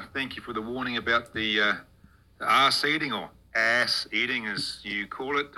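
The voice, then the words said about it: New Zealand accent. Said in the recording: “Mr. New Zealand here ... New Zealand, fuck me, we don't sound like Australians, mate”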